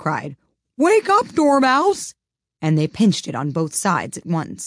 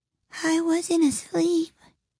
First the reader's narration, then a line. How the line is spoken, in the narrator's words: he said in a hoarse, feeble voice